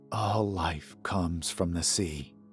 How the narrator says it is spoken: he whispered

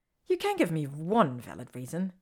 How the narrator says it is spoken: she says, crossing her arms indignantly over her chest

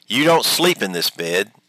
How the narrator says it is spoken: my wife exclaimed

